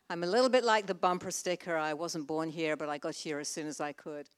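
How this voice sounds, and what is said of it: Non-Texan accent. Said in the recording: “You can probably tell by my accent that I'm not a native Texan.”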